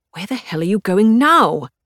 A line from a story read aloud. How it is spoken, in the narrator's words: Hubert hisses after me